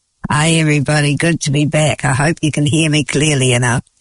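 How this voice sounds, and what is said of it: Croaky voice. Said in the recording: “my voice is all croaky”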